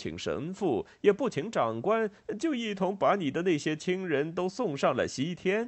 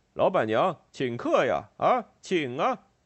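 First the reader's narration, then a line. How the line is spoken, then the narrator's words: Clear, crisp voice. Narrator (Chinese): 索涅特卡声音清脆地说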